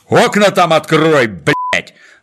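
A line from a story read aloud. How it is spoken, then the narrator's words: Sergeant's bark. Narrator (Russian): рявкнул на него старшина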